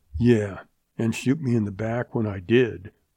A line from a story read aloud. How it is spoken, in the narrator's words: the kid snarled